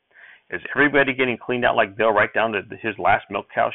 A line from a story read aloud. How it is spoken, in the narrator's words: she asked